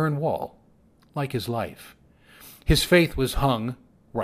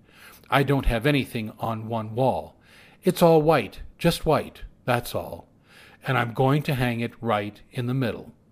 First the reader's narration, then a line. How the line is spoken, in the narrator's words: he said